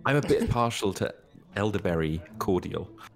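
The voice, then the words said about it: Put-on British accent. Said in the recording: “that sounds so British.”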